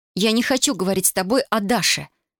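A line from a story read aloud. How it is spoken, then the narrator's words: Shouted. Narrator (Russian): крикнула она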